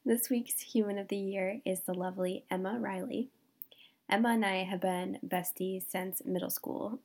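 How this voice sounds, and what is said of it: Congested voice from a cold. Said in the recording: “I have a cold. You might be able to tell from my voice,”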